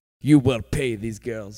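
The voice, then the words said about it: Put-on Russian accent. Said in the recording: “in a Russian accent,”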